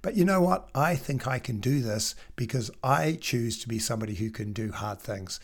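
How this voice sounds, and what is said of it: Rough voice from a cold. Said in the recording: “My voice is pretty rubbish at the moment because I still haven't got over my cold.”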